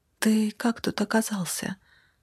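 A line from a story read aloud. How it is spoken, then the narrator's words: Whisper. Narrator (Russian): прошептала она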